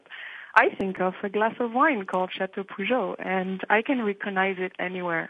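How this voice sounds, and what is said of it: Speaks English with a foreign accent. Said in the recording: “I love the accent. My engineer is saying he's listening to your accent”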